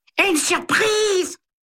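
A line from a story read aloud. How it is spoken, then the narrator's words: Clucking falsetto. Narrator (French): glousse Flora d'une voix de fausset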